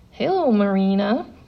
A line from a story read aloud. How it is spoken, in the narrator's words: the voice purred in a southern drawl